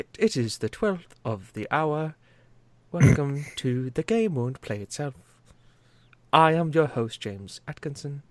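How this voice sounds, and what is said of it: Put-on RP English accent. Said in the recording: “I almost want to do RP”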